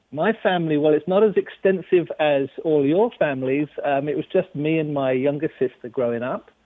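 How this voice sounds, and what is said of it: London English accent. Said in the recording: “there's another accent I hear there ... I'm from England. I'm from London, England.”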